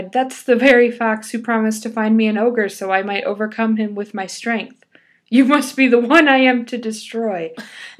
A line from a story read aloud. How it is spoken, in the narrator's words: he cried